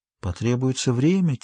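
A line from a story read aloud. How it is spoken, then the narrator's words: Quiet. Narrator (Russian): тихо произнесла она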